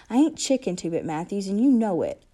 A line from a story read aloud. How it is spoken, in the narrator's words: I said angrily